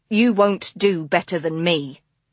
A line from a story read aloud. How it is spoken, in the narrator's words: he told her coldly